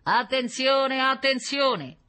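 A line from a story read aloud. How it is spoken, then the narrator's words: Booming loudspeaker. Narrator (Italian): tuonò la voce di un altoparlante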